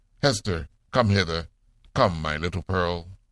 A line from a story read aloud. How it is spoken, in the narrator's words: The minister, surrounded by the leading men of the town, cried